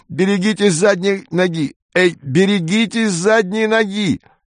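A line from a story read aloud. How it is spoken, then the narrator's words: Loud pained shouting. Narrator (Russian): скорчившийся человек громко кричал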